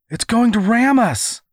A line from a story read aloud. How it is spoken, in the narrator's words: cried the girl